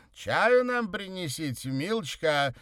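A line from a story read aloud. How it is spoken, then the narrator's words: Loud command. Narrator (Russian): громко распорядился Красин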